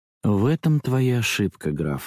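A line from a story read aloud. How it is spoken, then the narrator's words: Disappointed sigh. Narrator (Russian): несколько разочарованно вздохнула она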